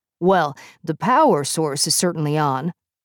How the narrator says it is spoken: Puck said

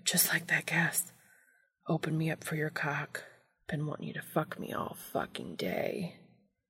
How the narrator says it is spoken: He started muttering

